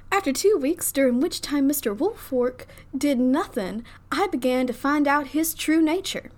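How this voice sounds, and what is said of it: Put-on Southern accent. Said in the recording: “I can't say this name in a Southern accent.”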